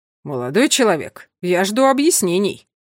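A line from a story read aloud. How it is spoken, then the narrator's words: Booming voice. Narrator (Russian): прогремел сотрудник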